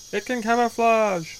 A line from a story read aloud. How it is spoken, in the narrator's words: Hamada screams